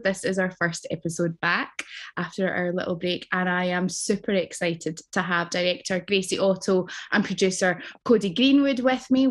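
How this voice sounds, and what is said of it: Speaks with a noticeable accent. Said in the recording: “especially with that accent”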